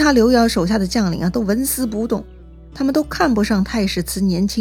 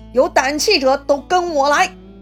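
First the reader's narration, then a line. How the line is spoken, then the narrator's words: Shouting. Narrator (Chinese): 他大喊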